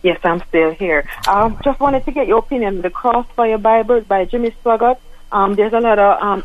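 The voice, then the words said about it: Accented speech, hard to understand. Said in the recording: “You have an accent. You're hard to understand”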